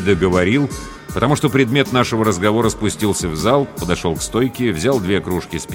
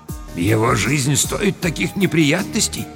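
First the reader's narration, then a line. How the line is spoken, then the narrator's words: Quiet. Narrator (Russian): сказал негромко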